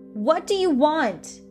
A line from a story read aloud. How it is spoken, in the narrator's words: she shouted at the image